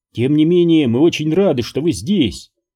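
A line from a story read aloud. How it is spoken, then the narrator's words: Ringing voice. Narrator (Russian): звонким голосом добавила Веерта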